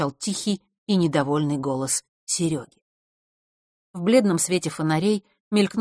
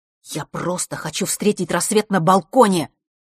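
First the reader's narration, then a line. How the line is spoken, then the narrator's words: Angry speech. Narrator (Russian): сердито произнес Серега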